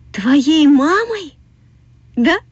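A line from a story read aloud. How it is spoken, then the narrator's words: Joyful, eager. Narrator (Russian): радостно сказала продавщица мороженого, будто только этого и ждала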